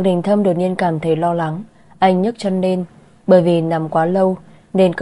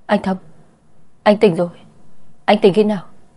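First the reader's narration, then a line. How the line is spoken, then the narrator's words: Stammering, astonished. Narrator (Vietnamese): Chu Tử Phạm lắp bắp nói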